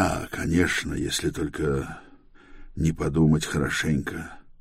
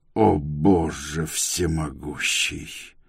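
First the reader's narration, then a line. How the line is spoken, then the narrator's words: Growl. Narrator (Russian): прорычал Антер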